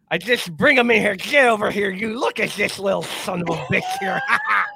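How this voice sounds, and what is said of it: Imitates another person's voice. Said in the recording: “the Lou Holtz ... That was so well done on the fly.”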